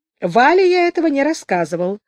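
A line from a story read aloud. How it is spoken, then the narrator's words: Calm. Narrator (Russian): спокойно сказал Сережка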